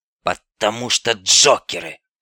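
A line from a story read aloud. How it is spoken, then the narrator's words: Hoarse grumble. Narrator (Russian): хрипло пробурчал скаут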